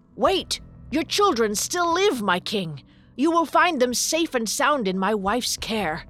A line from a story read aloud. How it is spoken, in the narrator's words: He shouted